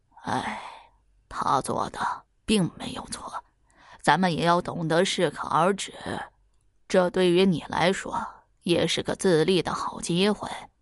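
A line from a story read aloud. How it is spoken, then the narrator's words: Sighing. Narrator (Chinese): 徐才听后叹了口气，说道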